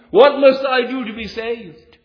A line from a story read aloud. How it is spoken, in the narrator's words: He cried